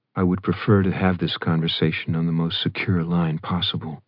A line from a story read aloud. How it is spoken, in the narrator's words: he murmured